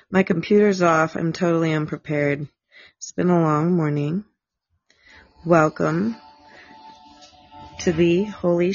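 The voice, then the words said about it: Voice sounds rough and unwell. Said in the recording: “Excuse my voice. I don't sound great right now.”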